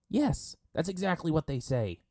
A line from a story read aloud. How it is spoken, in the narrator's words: Sokka yelled at them